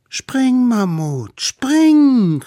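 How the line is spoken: Smallest one calling. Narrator (German): rief der Allerkleinste

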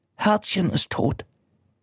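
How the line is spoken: Whispered. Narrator (German): flüstert

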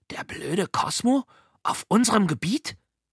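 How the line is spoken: Hissed. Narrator (German): Und Liesel zischte

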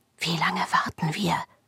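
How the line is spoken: Whisper. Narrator (German): flüsterte Rio

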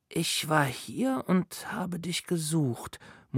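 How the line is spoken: Murmur. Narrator (German): murmelte er

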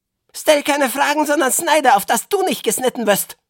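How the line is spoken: Sharp hiss. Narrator (German): zischte es so scharf

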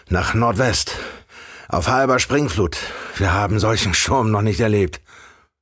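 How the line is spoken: Call. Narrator (German): rief

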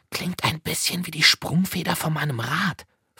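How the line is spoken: Whispering. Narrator (German): flüsterte Liesel

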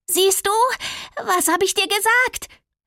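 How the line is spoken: Woman calling out. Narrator (German): rief sie

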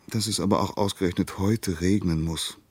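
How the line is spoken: Sighing. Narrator (German): seufzte er

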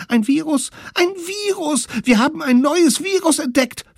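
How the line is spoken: Excited shouting. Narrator (German): riefen aufgeregt

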